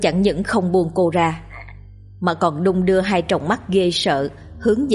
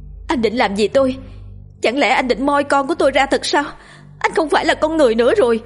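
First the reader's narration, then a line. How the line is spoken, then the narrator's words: Panicked scream. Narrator (Vietnamese): Cô hoảng loạn hét lên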